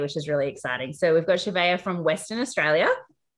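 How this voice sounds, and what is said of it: Broad Australian accent. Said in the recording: “from Australia with my Bogan accent”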